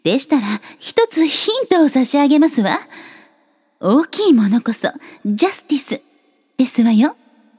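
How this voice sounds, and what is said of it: Imitates a character's voice. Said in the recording (Japanese): “誰のモノマネか ... 正解はグリーンハート様でした。”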